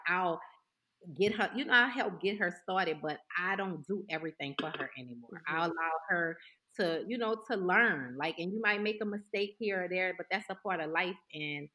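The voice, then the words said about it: New Orleans accent. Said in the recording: “I love Toya's accent. Now I know that comes from New Orleans.”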